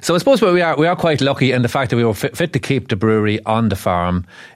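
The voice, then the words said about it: Rural Irish Monaghan accent. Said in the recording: “It's not a Nordy accent. It's sort of a boggy sort of Monaghan accent on the south side of Monaghan... Charming accent”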